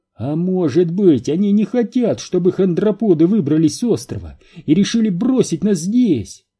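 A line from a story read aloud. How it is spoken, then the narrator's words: Exclaimed. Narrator (Russian): воскликнул Энди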